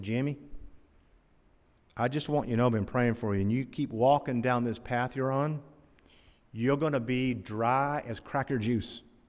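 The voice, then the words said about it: Imitated North Carolina accent. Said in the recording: “with that North Carolina accent”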